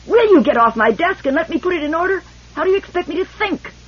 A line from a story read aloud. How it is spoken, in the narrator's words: With a sudden spasmodic recrudescence of ferocity, he screamed